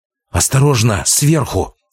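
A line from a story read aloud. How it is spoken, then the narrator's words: Sudden hiss. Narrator (Russian): вдруг зашипела Албыс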